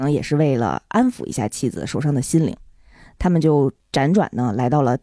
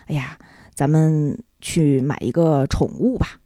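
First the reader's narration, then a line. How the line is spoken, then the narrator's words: Sad, consoling. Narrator (Chinese): 丈夫非常悲伤的安慰已经泣不成声的妻子啊，就跟妻子说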